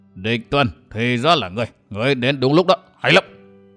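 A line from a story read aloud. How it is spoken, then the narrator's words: Very strange voice, middle-aged man. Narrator (Vietnamese): Một người tuổi trạc tứ tuần, đứng sau lưng Lâm Sương nói với giọng rất quái dị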